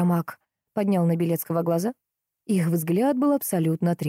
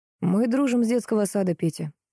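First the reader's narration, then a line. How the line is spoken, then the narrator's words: Quiet. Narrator (Russian): негромко сказал он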